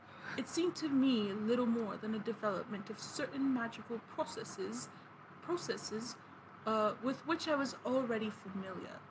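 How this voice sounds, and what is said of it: Put-on pretentious accent, some American slipping. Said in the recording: “I tried my best at an accent... There was probably some American in there... I captured his pretentiousness”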